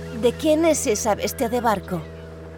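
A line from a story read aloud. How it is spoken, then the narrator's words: Plain. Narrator (Spanish): preguntó Larisa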